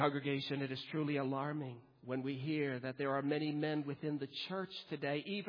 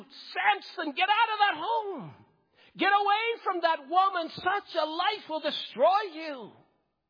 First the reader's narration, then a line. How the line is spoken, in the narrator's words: We want to shout